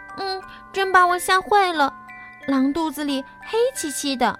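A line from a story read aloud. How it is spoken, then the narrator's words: Girl crying out. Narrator (Chinese): 小姑娘叫道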